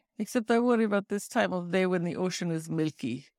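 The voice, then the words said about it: Vague Eastern European accent, sad tone. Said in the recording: “I'm going to do her very nondescript, like, Eastern European accent... they always sound sad about like everything”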